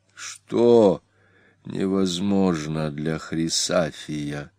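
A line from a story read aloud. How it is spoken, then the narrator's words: Gloomy whisper. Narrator (Russian): мрачно прошептал Прииск сенатору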